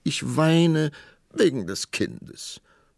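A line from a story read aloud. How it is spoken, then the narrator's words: Sobbing queen. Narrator (German): schluchzte die Königin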